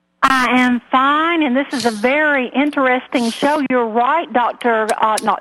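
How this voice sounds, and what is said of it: Lilting Southern US accent. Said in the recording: “I love that Georgian accent ... I love the lilt in your voice”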